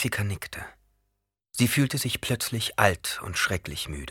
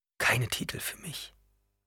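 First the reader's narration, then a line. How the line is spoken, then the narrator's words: Frightened whisper. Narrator (German): flüsterte Chani erschreckt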